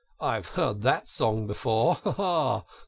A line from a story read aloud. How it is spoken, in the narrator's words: said Toad, laughing